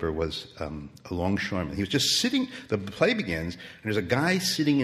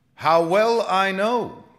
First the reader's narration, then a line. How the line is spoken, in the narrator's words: old cried